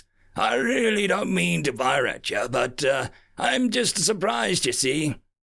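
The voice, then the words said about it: Gravelly villainous character voice. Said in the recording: “said the Ashtrax captain in a gravelly voice.”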